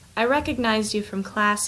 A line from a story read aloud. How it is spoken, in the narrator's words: he says